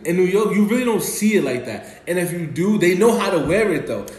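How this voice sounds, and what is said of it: New York accent. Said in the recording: “so I'm from New York ... It's all in the voice ... it's all in my accent”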